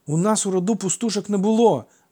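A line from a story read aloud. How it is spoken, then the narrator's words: Heated exclamation. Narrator (Ukrainian): запальчиво вигукнув Алкіт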